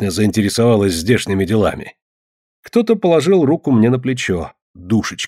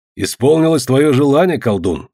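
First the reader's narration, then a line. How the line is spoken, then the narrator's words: Plain. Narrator (Russian): сказал Ворон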